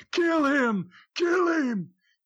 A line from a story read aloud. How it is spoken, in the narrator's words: I'm screaming just as loud as Danny is